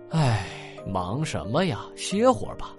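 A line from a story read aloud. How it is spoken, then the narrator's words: Sighing. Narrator (Chinese): 枯树桩叹口气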